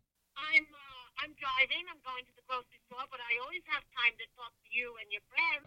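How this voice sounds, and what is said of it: Rhode Island, Boston-like accent. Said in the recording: “this is the best accent ever ... Is that the Rhode Island accent? ... Yeah, it's like a Boston accent.”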